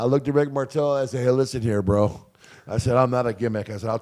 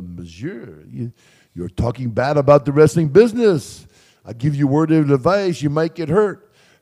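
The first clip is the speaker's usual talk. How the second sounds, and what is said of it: French-accented impression of Rick Martel. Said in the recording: “Rick Martel comes up to me with a French accent and says”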